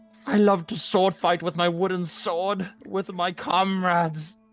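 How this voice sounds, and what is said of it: Impression of Commodus character voice. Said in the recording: “my Commodus impression”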